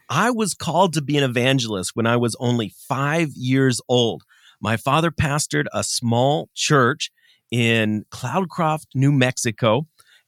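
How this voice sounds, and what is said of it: American accent. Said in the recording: “I love the American accent.”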